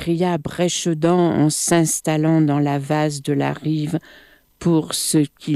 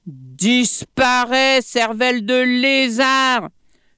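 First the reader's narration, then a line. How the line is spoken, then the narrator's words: Shouted from above. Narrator (French): lui cria Plat-Museau depuis le sommet de l'arbre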